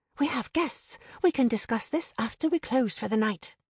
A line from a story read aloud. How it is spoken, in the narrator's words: hissed